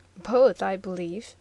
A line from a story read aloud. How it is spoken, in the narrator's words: answered Bruno, with a subdued laugh